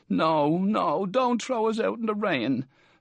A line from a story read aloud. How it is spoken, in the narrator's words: Welch's voice from the room pleading tearfully